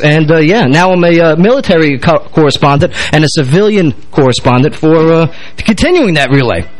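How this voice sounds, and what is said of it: New York accent. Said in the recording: “Please bear with the dialect. I'm a New York-minded guy with a military mouth.”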